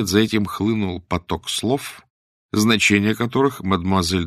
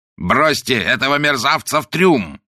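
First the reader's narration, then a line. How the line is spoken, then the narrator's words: Roaring. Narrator (Russian): проревел он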